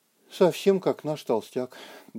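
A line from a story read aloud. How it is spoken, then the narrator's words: Sad remark. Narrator (Russian): грустно заметила Ика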